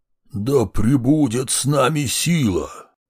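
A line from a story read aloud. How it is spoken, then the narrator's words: Deep bass voice. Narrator (Russian): Он пробасил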